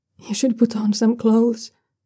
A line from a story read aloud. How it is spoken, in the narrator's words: Shenwei tells him, his voice shaky